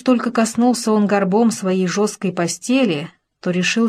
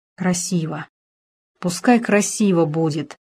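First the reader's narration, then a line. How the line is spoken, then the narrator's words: Whisper. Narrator (Russian): прошептал он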